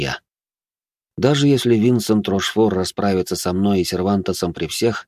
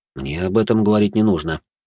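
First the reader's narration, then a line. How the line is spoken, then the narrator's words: Calm reply. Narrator (Russian): спокойно ответил я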